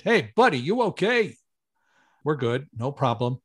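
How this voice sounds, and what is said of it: Heavy New York accent. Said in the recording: “in this good New York heavy accent”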